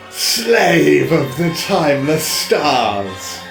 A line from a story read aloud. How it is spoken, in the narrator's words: bellowed Jupiter